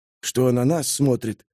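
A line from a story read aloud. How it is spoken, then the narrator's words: Whisper. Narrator (Russian): шепнул Ларри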